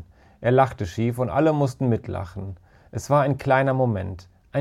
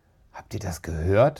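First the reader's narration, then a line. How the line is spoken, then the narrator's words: Whispered. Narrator (German): flüsterte Emma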